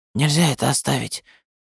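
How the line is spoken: Strange tense interruption. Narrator (Russian): перебил Даринг странным, напряженным голосом

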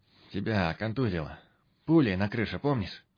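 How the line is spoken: Firmer voice. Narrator (Russian): Девушка спросила уже более твердым голосом

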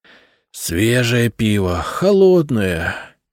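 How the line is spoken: Dreamy sigh. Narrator (Russian): мечтательно вздохнул первый городовой

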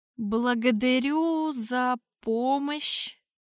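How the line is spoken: Forced out with difficulty. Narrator (Russian): С трудом выдавил из себя я

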